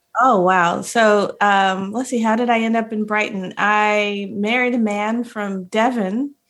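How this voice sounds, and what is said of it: American accent. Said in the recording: “I'm detecting, obviously, from the accent, you're obviously not from Brighton. You're from Ohio, right?”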